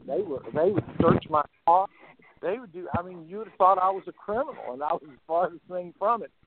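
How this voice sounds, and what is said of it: American Southern accent. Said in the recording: “my southern accent”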